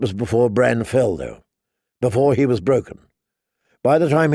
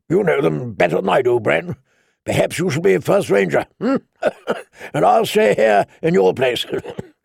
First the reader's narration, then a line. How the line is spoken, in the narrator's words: Benjen Stark had laughed and said